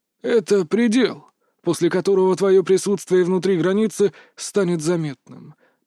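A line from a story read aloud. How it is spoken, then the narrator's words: Explaining. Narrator (Russian): пояснил учитель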